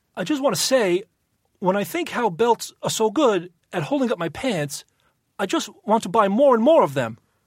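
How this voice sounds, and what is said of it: Bad Christopher Walken impression. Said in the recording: “That's the worst walking impression I've ever heard.”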